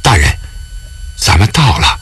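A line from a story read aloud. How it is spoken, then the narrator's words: Soft calling. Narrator (Chinese): 沈怀……小声地唤着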